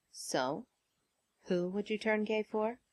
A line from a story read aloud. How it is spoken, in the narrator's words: Tony murmured against Peter's mouth